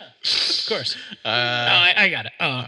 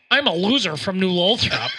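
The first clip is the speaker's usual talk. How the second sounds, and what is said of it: Put-on New Lothrop accent. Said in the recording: “The New Lothrop accent. Hit me with it... You do a really good impression.”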